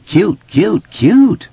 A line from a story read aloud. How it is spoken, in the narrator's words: Richie exclaimed